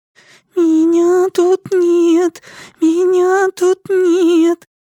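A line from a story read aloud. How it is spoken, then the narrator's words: Frightened shriek. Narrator (Russian): сестра завизжала от страха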